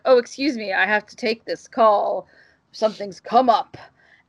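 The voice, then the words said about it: Poor imitation of a deep male voice. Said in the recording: “a really bad Lance Reddick impersonation, but I'm a lady and I don't talk that low”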